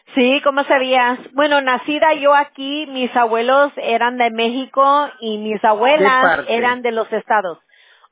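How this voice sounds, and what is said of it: Slight northern Mexican accent. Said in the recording (Spanish): “Tu acento como que es un poquito, se marca. De este lado para el norte.”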